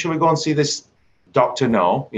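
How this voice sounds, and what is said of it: Imitated Accrington accent. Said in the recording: “Accrington accent, as he's doing it.”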